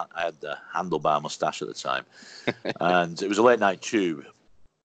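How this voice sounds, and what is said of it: Industrial-sounding regional accent. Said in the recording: “that accent is so industrial”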